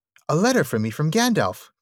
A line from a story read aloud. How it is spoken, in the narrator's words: cried Frodo